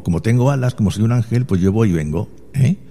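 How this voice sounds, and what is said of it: Granada Andalusian Spanish accent. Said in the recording (Spanish): “me suena que tiene un poquito de Granada ... Un poco de deje ... Yo tengo un acento granaíno arraigado”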